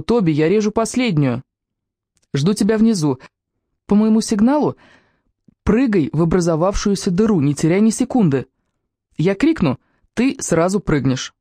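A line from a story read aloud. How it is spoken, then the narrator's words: Shouted from above. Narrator (Russian): Мано крикнул сверху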